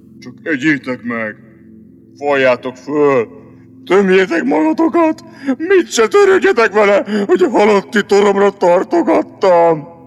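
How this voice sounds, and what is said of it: Deep, sepulchral, gloomy voice. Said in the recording (Hungarian): “Mondta síri hangon ... Mondta még síribb hangon”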